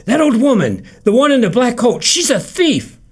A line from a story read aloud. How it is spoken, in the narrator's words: Abe Seidelman came running to Jake Kahn shortly after 5:30 and cried out